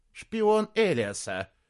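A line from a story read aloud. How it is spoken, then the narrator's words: Hissing. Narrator (Russian): прошипел кто-то из северных лордов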